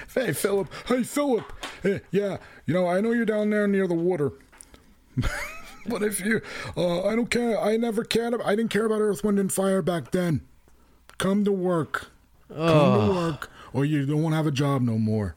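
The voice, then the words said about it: Imitates another person's voice. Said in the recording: “that was my impression of Philip Bailey's boss at Pat's Steaks”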